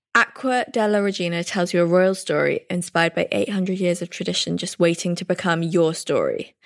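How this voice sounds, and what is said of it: English accent. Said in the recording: “your gorgeous English accent”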